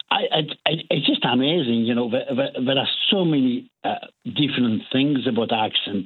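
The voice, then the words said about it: French accent. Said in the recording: “quite clearly you're French ... Your accent.”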